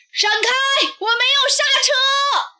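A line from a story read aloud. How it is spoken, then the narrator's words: Distant shout. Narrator (Chinese): 从远处传来一声大喊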